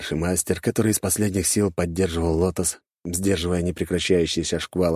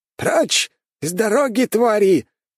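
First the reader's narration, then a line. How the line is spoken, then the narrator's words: Elder master shouting. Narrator (Russian): выкрикнул старший мастер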